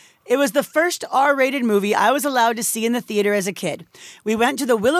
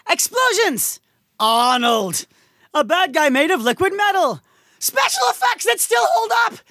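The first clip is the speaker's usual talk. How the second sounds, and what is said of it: Very excited, exclamatory delivery. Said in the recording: “I'm going to try to imply how many exclamation points there are... With my tone of voice.”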